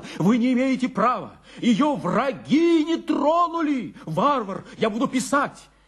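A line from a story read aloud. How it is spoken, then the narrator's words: Agitated flustered shouting. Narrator (Russian): Учитель волновался, поэтому не мог найти сильные, убедительные слова, только кричал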